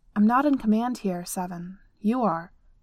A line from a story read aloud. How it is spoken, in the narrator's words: she said, firmly